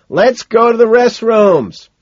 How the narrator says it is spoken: shout back

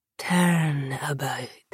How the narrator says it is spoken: Nikita whispered

